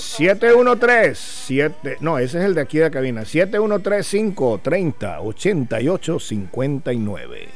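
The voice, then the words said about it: Radio announcer voice. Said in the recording (Spanish): “qué tremenda voz de locutor me estoy gastando últimamente”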